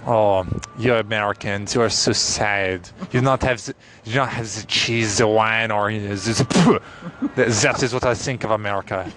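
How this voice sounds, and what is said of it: Put-on French accent. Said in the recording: “My typical French accent is”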